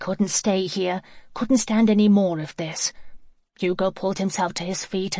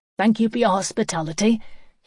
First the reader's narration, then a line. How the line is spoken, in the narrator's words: said curtly